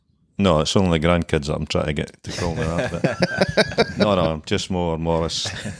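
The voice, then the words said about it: Scottish Fife accent. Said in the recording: “I'm a wee boy for Fife. I'll get the Fife accent in there”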